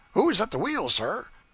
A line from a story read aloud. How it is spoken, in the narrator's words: the night watchman exclaimed